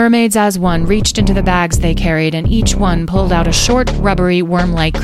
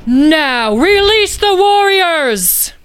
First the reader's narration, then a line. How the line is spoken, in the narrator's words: Salika yelled to the mermaids